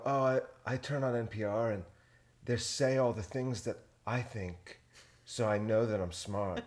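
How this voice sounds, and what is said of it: Mock NPR-style speaking voice. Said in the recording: “That's a good accent... That's how they talk on NPR.”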